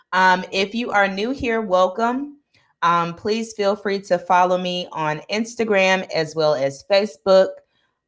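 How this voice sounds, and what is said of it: Rough voice recovering from cold. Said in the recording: “I'm just getting over a cold, so my voice is just coming back. So there may be some spottiness here and there”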